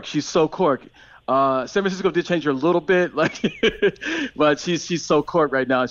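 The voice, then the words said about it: American accent. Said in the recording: “I haven't got the Irish accent yet. I still got my American accent.”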